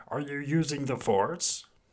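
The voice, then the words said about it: Yoda character voice. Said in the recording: “That was my Yoda impression.”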